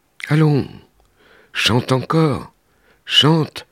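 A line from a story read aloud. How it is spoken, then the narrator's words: Kind voice. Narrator (French): dit d'une voix gentille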